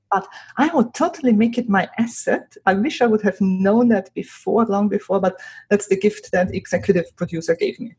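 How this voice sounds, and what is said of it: Speaks with a foreign accent. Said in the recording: “the accent that you have”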